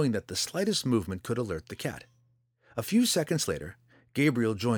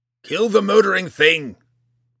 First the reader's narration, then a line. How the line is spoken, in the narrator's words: Roddy cried